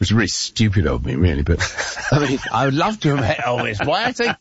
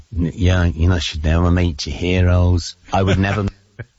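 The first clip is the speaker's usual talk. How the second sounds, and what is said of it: Nasal Liverpool accent impression. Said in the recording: “doing an English accent when he imitated John Lennon ... He was doing the Liverpool thing. Yeah, that was good. ... It's actually a pretty good impression of him. ... It tries to go a little nasally”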